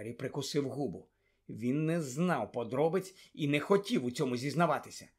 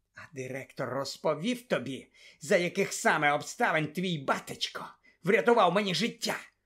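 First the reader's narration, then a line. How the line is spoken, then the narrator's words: Hiss. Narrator (Ukrainian): просичав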